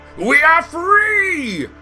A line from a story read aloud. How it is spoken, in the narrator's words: Green roared